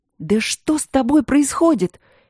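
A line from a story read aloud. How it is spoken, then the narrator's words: Bewildered shouted whisper. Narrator (Russian): недоуменно закричала шепотом Ангелина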